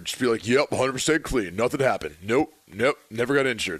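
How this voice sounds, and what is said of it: Gruff linebacker-like imitated voice. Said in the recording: “Is that your AJ Hawk impression? ... Sounds like a linebacker.”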